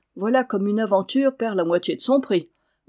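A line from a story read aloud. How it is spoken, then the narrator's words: Grumbled. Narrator (French): grommela-t-il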